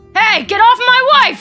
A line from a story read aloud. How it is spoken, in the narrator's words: he shouts